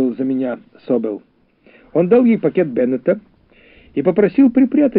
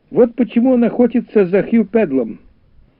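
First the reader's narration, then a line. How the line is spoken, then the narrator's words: Loud laughter. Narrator (Russian): он громко рассмеялся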